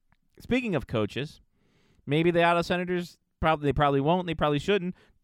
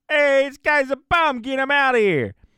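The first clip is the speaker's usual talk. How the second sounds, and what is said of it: Put-on New York accent. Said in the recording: “Don't know what accent that was, but we'll say it's New York.”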